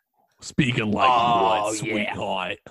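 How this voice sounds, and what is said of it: Cartoon thug villain voice. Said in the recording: “Why are you speaking like that? ... You sound like a rapey uncle. ... it sounds like a thug from a Batman cartoon.”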